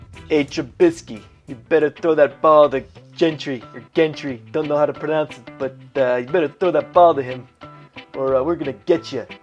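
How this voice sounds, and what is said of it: Bad put-on Chicago gangster accent. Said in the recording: “I'm trying to be a Chicago gangster. It's a really bad accent.”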